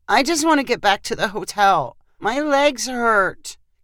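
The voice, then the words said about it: Whiny child's voice. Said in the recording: “in a whiny voice”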